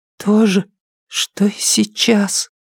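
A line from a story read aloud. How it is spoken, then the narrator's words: Whispered. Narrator (Russian): прошептал Брайан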